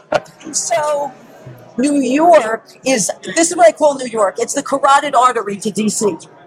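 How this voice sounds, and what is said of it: New York accent. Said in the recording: “Now I'm in New York. Okay, so born and bred from the city ... Oh, we wouldn't know by your accent ... my voice precedes me”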